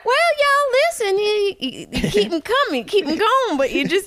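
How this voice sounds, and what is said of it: Poor Southern drawl celebrity impression. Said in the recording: “That's a terrible impression. We're both horrible at impressions. ... Mine sounded like some drunk man from Georgia”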